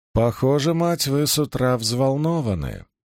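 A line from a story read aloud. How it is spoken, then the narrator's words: Purring woman. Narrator (Russian): мурлыкнула зеленоглазая женщина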